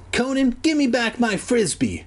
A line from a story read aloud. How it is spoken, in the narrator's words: Kermit whined